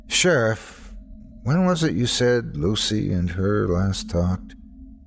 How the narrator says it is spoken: I asked wearily

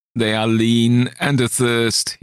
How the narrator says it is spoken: he shrieked

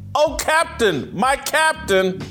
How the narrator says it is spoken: The boys shouting

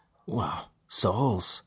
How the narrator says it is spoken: Delam said, his voice low and his disgust clear

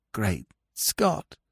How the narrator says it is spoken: whispered hoarsely

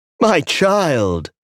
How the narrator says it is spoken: cried

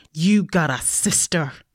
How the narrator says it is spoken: I snarled to my brother

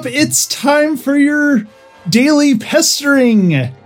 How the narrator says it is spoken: he said, everly cheerfully

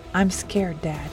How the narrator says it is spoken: she said, her voice trembling

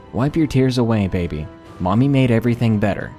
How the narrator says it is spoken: said in a calm voice

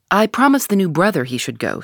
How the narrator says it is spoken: said the chairman

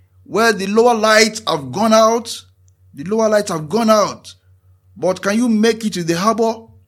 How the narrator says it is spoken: the lighthouse keeper responded, shouting over the noise of the waves

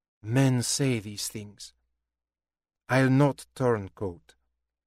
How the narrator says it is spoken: she sighed, said

